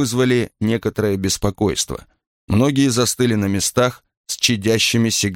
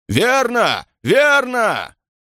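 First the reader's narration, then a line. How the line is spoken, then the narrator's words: Shouted. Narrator (Russian): Кто-то закричал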